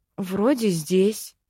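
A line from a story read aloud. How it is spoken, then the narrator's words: Uncertain mumble. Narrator (Russian): неуверенно пробормотала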